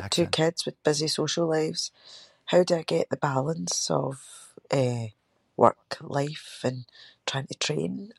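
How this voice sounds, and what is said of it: Scottish accent. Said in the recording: “a Scottish accent. Oh, I fucking love the accent.”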